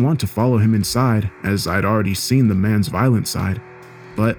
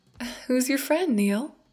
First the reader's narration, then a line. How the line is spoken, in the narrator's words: She nervously looked at her husband and asked